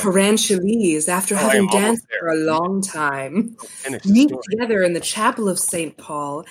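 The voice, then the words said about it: Sultry, seductive reading voice. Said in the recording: “I'm going to read this in my sexual voice. ... I'm going to read you some erotic fiction voice.”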